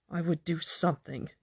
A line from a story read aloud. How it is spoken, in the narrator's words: muttered unwillingly